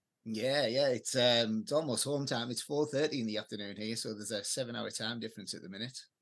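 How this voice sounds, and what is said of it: English accent, not Australian. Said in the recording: “I can tell that you haven't fully taken on board everything Australian. Your accent gives the game away.”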